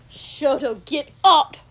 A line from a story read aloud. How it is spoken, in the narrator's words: Kotsky said loudly